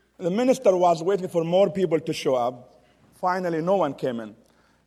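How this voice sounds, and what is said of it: Heavy non-native English accent. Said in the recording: “I do have a heavy accent ... my heavy accent goes back to Texas”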